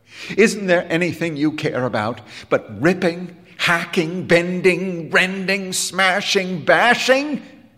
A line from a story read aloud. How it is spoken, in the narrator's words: He cried